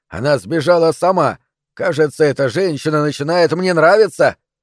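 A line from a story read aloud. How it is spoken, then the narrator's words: Yelling in Tagalog. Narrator (Russian): Салик что-то вопил на тагальском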